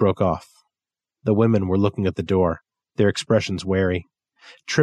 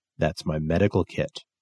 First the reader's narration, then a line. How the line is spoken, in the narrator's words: Ellis said, his voice calm